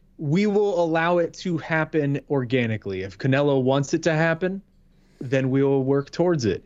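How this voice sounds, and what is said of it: Imitates another person's voice. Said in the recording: “that your Scott Coker impression? That's a very Cokery response.”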